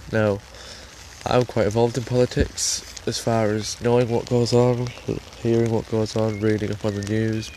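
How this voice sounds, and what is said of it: English accent. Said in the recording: “I'm from England, by the way, if you can tell by the accent”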